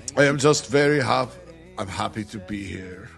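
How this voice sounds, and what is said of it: Thick German-style accent impression. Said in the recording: “pretty thick accent... His native tongue... Sounds like Arnold Schwarzenegger”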